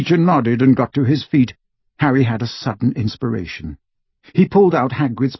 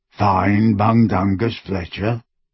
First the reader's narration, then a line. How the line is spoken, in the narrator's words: he croaked